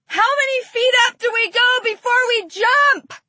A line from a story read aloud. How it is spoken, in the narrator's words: yelled over the whirling air in the plane